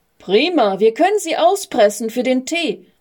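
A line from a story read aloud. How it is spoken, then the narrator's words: Boy calling. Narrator (German): rief ein Junge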